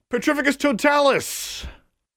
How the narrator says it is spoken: screamed

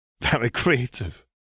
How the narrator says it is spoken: wheezed

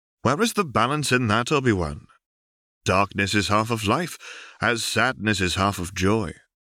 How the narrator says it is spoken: Ben says gently

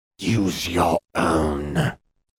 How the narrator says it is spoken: Voldemort hissed

